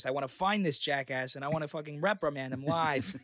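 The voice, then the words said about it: Imitates another person's voice, Boston accent. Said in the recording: “you have a good Bobby Kennedy voice. ... That's JFK. ... You have a good JFK voice. ... it's just a Boston accent”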